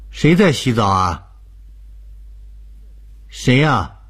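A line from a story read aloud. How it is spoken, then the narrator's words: Calling out down hallway. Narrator (Chinese): 郭莹忍不住对着走廊尽头叫着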